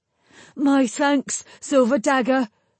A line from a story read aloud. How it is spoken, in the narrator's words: Perrin gasped